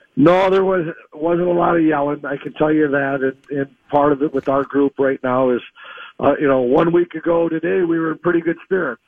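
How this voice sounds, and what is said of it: Voice strained from a cold. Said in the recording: “Battling a little cold here, so my voice is going to struggle through”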